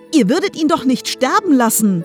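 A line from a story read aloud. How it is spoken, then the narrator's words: Calling out. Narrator (German): rief Tilly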